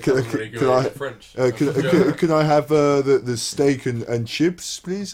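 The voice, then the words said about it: English spoken in fake foreign accent. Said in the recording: “they speak English in a foreign accent ... it's just a pathetic attempt”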